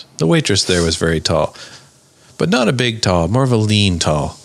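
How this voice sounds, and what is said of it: Stuart McLean impression. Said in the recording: “not a bad Stuart McLean impression”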